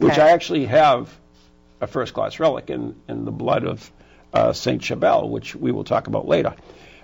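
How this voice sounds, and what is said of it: New England accent. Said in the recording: “Excuse our New England accent.”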